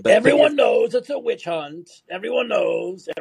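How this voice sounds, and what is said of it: Imitates another person's voice. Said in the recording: “horrible Trump imitations ... My impersonations are good ... They both suck.”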